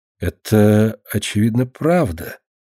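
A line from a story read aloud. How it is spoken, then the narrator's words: Uncertain. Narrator (Russian): неуверенно сказала Марина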